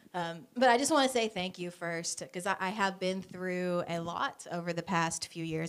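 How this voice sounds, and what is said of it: Voice much deeper than usual. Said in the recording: “my voice is not quite what it was last week. I have dropped a couple of octaves. I decided I would try out being a bass”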